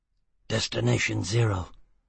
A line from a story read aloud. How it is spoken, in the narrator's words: Foyle muttered, no longer relaxed, once more possessed